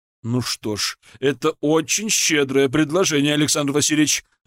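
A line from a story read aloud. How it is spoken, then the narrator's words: Hearty laughter. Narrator (Russian): расхохотался император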